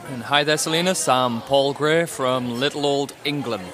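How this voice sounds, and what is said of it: British northeast England accent. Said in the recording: “he's British, in case you couldn't tell. ... I kind of talk funny. ... I'm from the northeast of England. Newcastle.”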